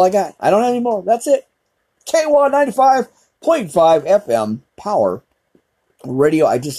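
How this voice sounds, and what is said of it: Usual voice. Nothing is said of it.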